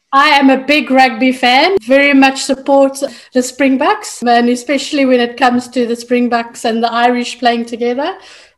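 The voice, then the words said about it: South African accent. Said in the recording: “people might detect by your accent that you're from some part of Africa ... Born and bred South African.”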